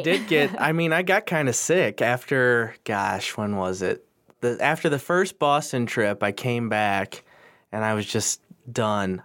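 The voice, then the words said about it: Nasal, congested voice. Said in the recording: “You could probably still tell in my voice. I'm kind of still nasally.”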